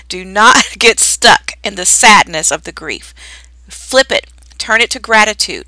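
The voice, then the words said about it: Stern motherly scolding voice. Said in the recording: “in my mama voice”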